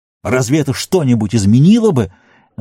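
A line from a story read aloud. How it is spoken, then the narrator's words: Almost shouting. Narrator (Russian): Денетер почти кричал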